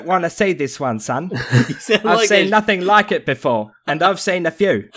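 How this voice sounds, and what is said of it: Put-on English policeman accent. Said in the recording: “in like an English, like Bobby accent ... You sound like a fucking rip-off Michael Caine.”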